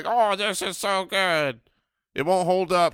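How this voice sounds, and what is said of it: Mocking impression of a friend. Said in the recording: “That is not a good impression... That was a great impression of Andy... We don't sound anything like that.”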